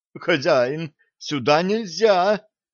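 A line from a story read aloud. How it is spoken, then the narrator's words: Pleading from behind. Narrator (Russian): взмолился из-за его спины управляющий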